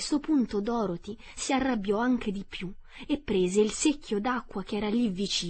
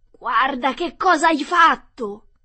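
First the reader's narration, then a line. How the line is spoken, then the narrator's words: Shouting. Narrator (Italian): urlò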